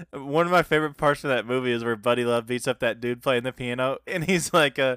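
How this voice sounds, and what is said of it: Usual voice. Nothing is said of it.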